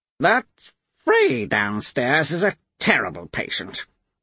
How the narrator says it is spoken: Padera grumbled

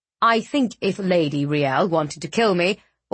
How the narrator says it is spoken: Audric snapped

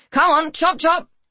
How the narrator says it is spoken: she shouted

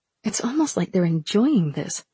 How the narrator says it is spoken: Rin muttered

